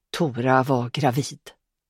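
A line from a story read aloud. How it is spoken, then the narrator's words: Quiet. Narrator (Swedish): sa hon tyst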